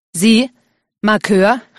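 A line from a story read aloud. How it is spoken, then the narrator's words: Called out. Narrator (German): rief August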